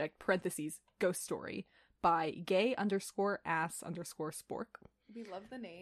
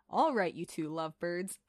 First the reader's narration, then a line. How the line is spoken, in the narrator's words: Sam chuckled